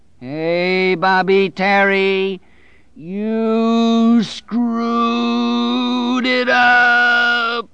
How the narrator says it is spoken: the dark man bellowed

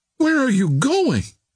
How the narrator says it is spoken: cried the girl

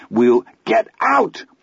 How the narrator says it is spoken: Chris screamed

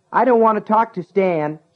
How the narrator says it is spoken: he yelled

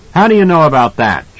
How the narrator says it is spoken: Jack barked

